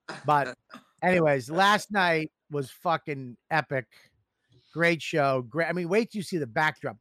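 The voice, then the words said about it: Boston accent. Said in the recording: “I have a Boston accent. Everything sounds racist with my accent.”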